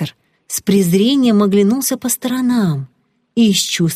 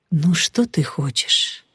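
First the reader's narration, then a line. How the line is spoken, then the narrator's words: Sad, with a smile. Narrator (Russian): Как-то грустно улыбнувшись, сказал сенсей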